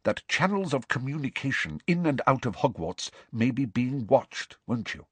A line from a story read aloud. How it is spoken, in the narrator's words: she said quickly and quietly